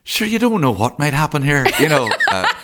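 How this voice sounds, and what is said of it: Put-on soft northern Irish accent. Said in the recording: “The soft northern accent ... I don't even know whether that's not a Donegal accent ... It wasn't bad.”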